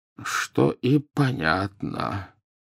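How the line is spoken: Muttered. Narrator (Russian): пробормотал Дамблдор

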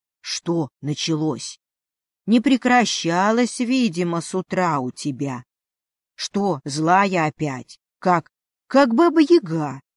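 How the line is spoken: Plain. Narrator (Russian): ответил хозяин дома

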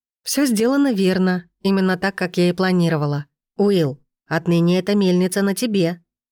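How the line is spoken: Calm. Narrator (Russian): спокойно добавила я

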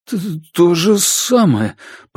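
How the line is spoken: Timid babbling. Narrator (Russian): пролепетал Дежарден

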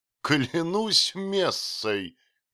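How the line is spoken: Shout, then loud laughter. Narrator (Russian): крикнул он и расхохотался во все горло

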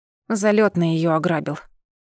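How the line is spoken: Displeased grumble. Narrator (Russian): проворчала я недовольно

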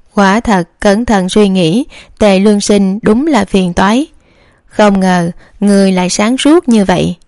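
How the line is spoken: Stunned then laughing. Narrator (Vietnamese): Trường Bình công chúa sững sờ, sau đó bật cười

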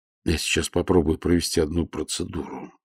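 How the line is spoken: Quiet. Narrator (Russian): негромко проговорил Нестор Васильевич

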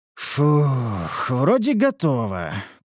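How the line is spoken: Doubtful drawl. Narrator (Russian): протянул я с сомнением

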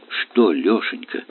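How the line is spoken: Trembling, strained voice. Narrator (Russian): дрожащим голосом с трудом произнесла она

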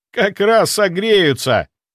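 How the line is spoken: Short laugh. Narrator (Russian): хохотнул Андрей

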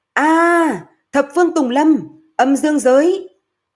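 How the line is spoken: Loud shout. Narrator (Vietnamese): Hạ Ngọc Long liền hét to

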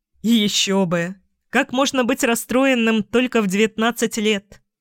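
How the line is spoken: Laughing. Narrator (Russian): рассмеялся

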